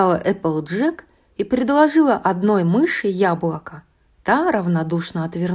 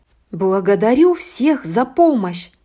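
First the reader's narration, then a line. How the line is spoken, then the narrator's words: Plain. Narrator (Russian): сказала Эпплджек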